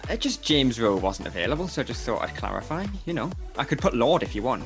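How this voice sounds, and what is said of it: Hard-to-understand regional accent. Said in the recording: “for those of you who find it difficult to understand my accent”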